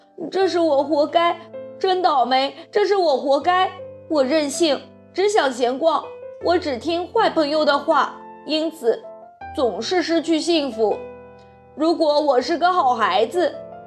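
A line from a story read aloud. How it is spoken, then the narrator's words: Angry, crying. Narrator (Chinese): 不断生气地……哭着说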